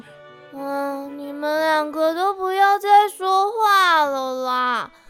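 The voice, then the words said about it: Lazy, drawling voice. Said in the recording (Chinese): “懒洋洋地躺在草地上，用懒懒的声音说”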